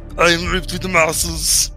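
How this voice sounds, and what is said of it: Deliberately bad imitation of another's voice. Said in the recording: “My terrible Arnold impression.”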